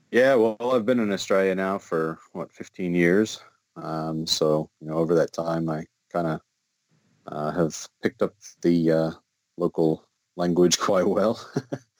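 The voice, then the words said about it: Australian accent. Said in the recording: “I'm hearing quite a bit of an Australian accent.”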